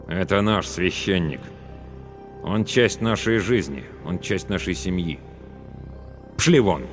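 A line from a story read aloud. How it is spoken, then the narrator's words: Cold declaration. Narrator (Russian): Главный ликвидатор холодно заявил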